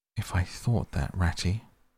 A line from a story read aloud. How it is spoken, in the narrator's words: murmured Toad more feebly than ever